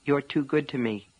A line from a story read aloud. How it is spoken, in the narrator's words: Polly said softly